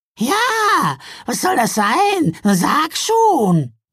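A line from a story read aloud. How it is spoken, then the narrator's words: Impatient call. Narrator (German): rief ungeduldig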